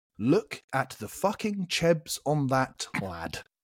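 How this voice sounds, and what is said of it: Fair attempt at Liverpool accent. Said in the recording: “in a Liverpool accent ... That wasn't a bad effort.”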